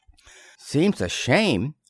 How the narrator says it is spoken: murmured Twink

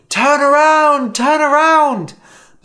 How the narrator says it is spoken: You scream

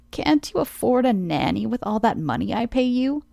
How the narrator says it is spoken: Judith scoffed

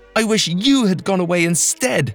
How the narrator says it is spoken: she screamed

